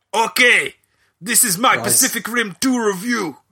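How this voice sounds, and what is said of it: Put-on accent. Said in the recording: “Can you do it in an accent, please? ... An accent. ... No. Go back to your normal one.”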